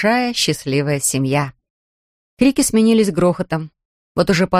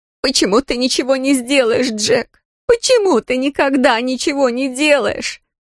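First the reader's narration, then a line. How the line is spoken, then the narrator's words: Wailing lament. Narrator (Russian): причитания Грейс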